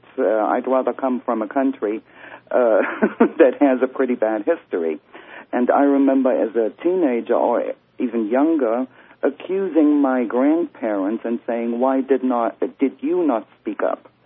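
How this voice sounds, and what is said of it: Non-American foreign accent. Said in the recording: “As you can tell by my accent, I'm not from the United States.”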